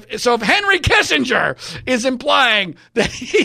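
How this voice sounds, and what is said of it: Usual voice. Nothing is said of it.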